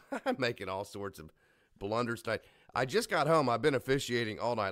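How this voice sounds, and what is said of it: Slightly rough voice. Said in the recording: “if my voice sounds a little bit rough”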